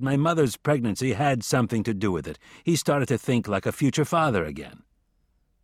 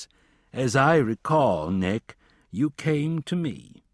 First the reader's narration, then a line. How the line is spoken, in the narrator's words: He answered in a hollow voice